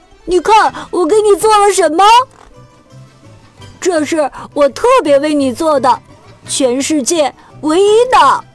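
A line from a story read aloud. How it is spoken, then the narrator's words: Shouting. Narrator (Chinese): 它喊着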